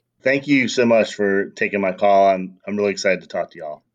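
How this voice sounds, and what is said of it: Southern American accent. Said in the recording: “I'm a sucker for a southern accent”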